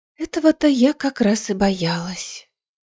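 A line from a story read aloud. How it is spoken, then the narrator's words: Theatrical sigh. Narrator (Russian): театрально вздохнула Гвин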